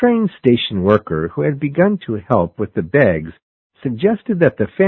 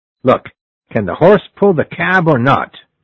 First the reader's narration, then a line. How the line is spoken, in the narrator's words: asked the father impatiently